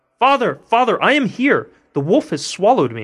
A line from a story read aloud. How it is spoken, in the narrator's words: Tom cried out